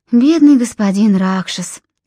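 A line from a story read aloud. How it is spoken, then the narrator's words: Sighing. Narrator (Russian): вздохнула Филиппа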